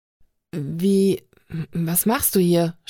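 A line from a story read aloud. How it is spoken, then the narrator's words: Stuttering. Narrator (German): stotterte Sonny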